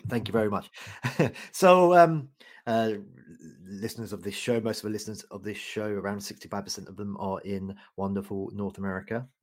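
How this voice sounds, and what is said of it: British English accent. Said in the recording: “I have a funny accent because I'm originally from the UK.”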